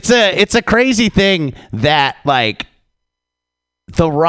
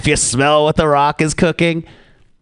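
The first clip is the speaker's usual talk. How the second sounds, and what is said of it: Imitates another person's voice, poorly. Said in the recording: “my Rock impression ... I tried it and it wasn't good”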